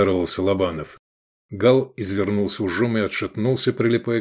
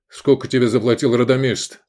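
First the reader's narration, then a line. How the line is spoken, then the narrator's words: Barking in cold fury. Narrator (Russian): рявкнул Лобанов, ощущая горение холодной ярости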